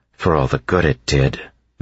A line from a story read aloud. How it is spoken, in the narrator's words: Vin grumbled